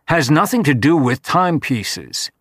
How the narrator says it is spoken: said harshly

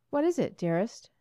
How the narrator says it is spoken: she murmured

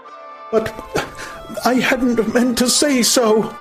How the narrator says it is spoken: cried the savage, clasping his hands in a kind of agony

